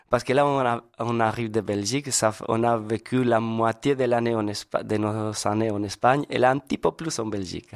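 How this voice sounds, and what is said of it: Spanish accent speaking French. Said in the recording (French): “vous êtes espagnols? ... C'est ça votre accent.”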